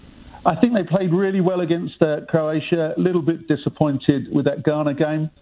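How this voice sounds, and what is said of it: English accent. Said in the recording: “with my accent, I'm English”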